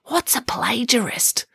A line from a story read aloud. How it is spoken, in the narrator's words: did not want to appear ignorant, so quietly whispered